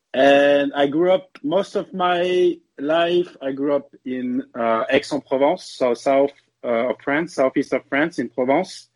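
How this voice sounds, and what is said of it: French accent. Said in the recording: “the Boston roots and the Boston attitude with a French accent”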